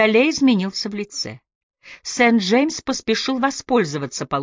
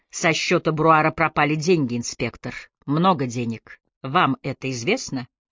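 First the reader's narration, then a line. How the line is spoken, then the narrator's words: Calm. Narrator (Russian): Он спокойно произнес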